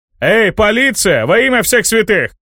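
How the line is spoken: Shouting with full force. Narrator (Russian): Что было сил, закричал Тоби

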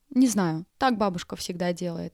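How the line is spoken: Plain. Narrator (Russian): ответила Юля

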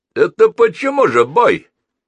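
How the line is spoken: Shouted. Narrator (Russian): крикнул кто-то

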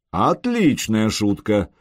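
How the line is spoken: Chuckling. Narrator (Russian): Пентарх хохотнул

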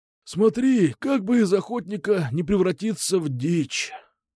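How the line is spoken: Sighing. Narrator (Russian): вздохнул Кукуша

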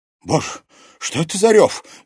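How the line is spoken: Frightened start. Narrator (Russian): испуганно вздрогнула мать Луизы Соловьевой

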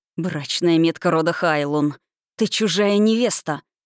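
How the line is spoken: Furious, through gritted teeth. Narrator (Russian): Рилун яростно процедил

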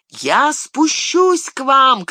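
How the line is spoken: Shouted. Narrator (Russian): крикнул Сэм

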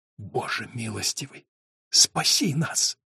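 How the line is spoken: Whisper. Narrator (Russian): прошептал Том

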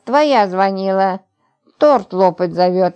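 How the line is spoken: Joyful exclamation. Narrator (Russian): Радостно воскликнула она

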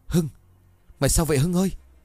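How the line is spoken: Terrified stammer. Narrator (Vietnamese): ông Đại kinh hãi miệng lắp bắp

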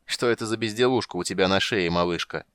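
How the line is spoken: Giant's short laugh. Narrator (Russian): хохотнул великан

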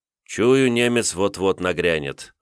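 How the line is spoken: Sighing admission. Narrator (Russian): вздохнув, признался князь

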